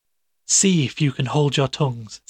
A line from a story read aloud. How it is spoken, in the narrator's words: said he